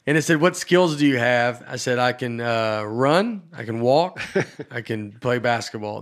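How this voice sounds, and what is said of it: Southern American accent. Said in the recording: “I can only do a Southern accent. I also can't not do this Southern accent.”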